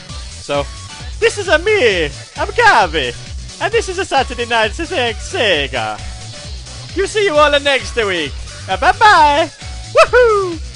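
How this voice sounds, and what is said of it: Mario-style Italian accent. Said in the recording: “say goodbye in a Mario accent”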